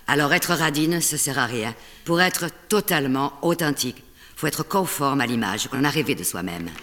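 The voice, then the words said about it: Southern French accent, slight Spanish tinge. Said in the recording (French): “accent du sud avec un petit accent espagnol”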